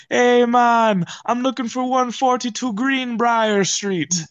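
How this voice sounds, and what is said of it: Put-on Jamaican accent. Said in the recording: “I'm going to do a Jamaican accent.”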